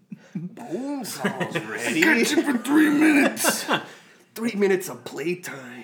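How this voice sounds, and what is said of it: Macho Man Randy Savage impression. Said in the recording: “do a Macho Man impression”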